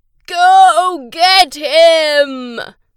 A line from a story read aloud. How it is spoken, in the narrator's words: his great-granddad yelled